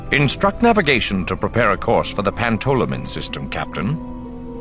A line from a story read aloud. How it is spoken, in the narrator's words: he said, his voice thoughtful